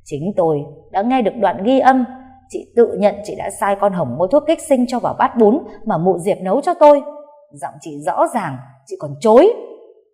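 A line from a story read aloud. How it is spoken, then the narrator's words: Hissing through clenched teeth. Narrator (Vietnamese): cô Bích đã nghiến răng rít lên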